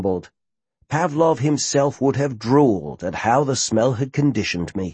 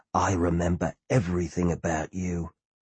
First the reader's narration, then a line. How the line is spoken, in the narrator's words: I whispered in her ear